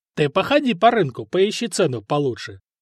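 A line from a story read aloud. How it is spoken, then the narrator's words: Guffawing. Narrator (Russian): захохотал Вышата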